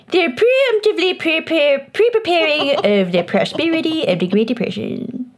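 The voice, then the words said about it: Put-on accent. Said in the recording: “I both love and hate this accent.”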